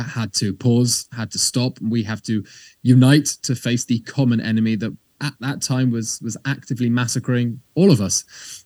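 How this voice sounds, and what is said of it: British English accent. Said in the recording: “as you can tell from my accent, I'm not originally Israeli. I was born in the UK”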